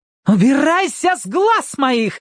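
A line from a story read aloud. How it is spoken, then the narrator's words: Daughter shouting. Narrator (Russian): закричала дочь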